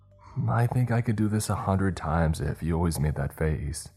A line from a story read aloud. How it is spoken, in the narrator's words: he chuckled